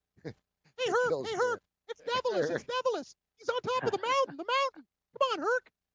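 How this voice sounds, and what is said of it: Cartoon character voice. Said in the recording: “a cartoon voice”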